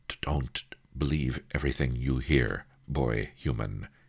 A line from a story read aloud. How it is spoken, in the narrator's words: he said